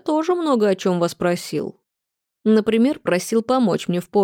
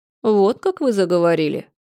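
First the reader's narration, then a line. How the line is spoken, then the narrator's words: Icy, suddenly calm man. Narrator (Russian): Мужчина с портрета неожиданно успокоился и проговорил ледяным тоном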